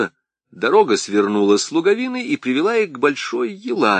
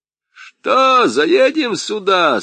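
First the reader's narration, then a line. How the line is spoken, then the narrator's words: Shouting from a distance. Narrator (Russian): с передних саней крикнул Харлампий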